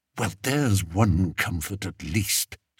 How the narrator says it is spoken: Spittleworth whispered back

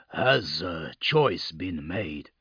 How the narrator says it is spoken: Gaelrunner growled again

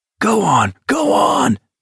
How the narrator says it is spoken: Abraham bellowed

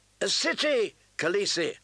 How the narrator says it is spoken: they cried

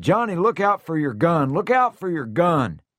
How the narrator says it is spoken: I shouted

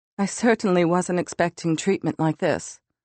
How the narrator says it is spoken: she said in her cultured British accent

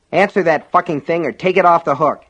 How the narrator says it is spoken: Alan snapped at Norris

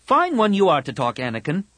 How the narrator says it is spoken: Tahiri snapped

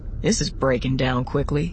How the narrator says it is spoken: Hawk murmured

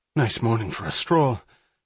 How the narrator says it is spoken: Hatch panted

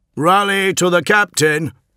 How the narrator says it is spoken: shouted Newman

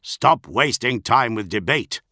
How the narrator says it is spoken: Keel growled

